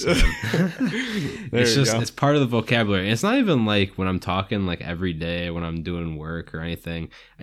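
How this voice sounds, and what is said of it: Strong regional dialect. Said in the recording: “my dialect makes me sound like I'm an idiot”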